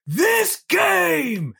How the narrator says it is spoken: they all yell back

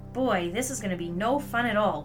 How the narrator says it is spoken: grumbled the little soul

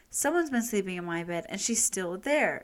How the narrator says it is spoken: exclaimed the Baby Bear

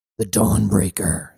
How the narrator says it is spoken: Cybele growled

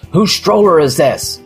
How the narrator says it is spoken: bag lady begins loudly asking

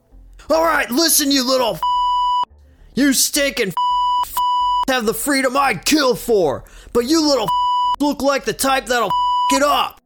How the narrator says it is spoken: the prisoner yells

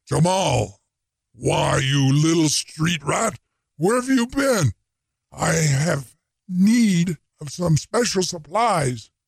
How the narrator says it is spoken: A gruff, deep, booming voice said

